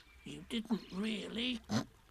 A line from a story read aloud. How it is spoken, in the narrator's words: whispered Piglet to Pooh, so as to comfort him